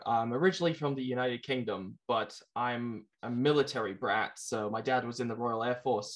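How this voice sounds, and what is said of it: British accent with North American twist. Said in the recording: “I did notice you had an accent, but I thought it was Australian ... I've been mistaken for Australian before ... my accent as a kid got a little bit mixed up and jumbled. It's like a British accent with a North American twist on it.”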